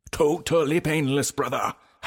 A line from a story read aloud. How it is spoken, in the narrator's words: Hype Man shouted